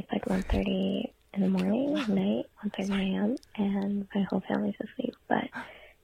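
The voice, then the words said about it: Whispering. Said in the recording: “I'm sorry I'm like whispering.”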